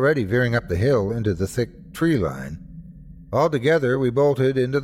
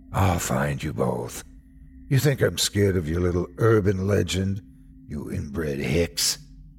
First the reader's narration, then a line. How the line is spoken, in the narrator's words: He laughed, deep and raspy